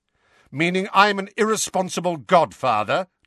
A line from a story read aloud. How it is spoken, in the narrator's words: demanded Sirius, his voice rising